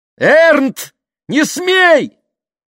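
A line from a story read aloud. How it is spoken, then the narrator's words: Shouting. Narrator (Russian): крикнула мама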